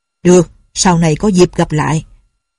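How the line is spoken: Cold snort. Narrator (Vietnamese): Dư Thương Hải lạnh lùng hừ một tiếng rồi nói

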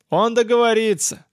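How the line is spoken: Confident shout. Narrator (Russian): с уверенностью в голосе выкрикнул Зондер

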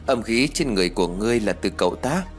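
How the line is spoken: Smiling. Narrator (Vietnamese): ông ta mặt vẫn còn mỉm cười như cũ rồi nói

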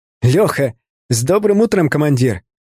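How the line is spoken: Loud cheerful greeting. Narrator (Russian): Весело на весь пустырь поздоровался он

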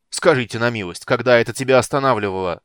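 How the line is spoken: Harsh bark. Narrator (Russian): рявкнул Карамон

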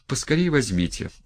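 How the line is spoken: Exclaimed. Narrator (Russian): воскликнула она

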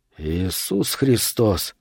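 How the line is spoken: Quiet. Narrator (Russian): тихо сказал Вес

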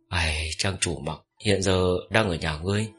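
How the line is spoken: Soft sigh. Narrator (Vietnamese): Trác Thanh Phong khẽ thở dài

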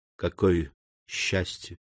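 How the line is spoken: Whisper. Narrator (Russian): прошептала она

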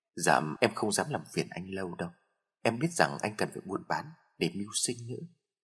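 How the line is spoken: Soft laugh. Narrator (Vietnamese): Hương cười khẽ

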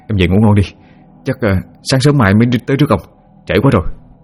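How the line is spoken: Trembling voice. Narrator (Vietnamese): Hùng mới run rẩy nói

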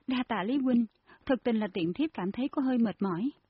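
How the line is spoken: Grateful smiling reply. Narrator (Vietnamese): Nguyên Nhi cảm kích mỉm cười đáp

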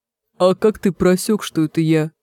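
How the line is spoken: Sighing. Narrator (Russian): Треф вздохнул

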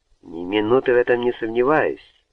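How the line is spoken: Cheerful remark. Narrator (Russian): весело заметил лорд Харткорт

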